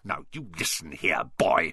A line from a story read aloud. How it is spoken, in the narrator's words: he snarled